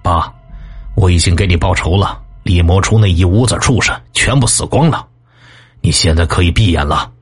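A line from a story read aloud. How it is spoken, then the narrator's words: Low, deep voice. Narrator (Chinese): 李青海……声音低沉的说道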